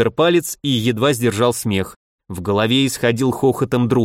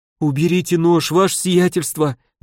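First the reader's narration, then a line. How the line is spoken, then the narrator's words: Trembling plea. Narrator (Russian): дрожащим голосом попросил купец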